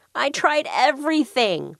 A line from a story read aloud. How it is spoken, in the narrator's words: moaned Mr